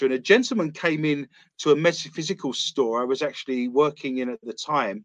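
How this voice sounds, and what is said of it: British accent. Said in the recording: “I have a British accent”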